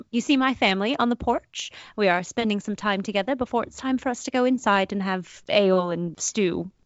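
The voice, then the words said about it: Put-on posh British accent. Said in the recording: “I have a posh British accent.”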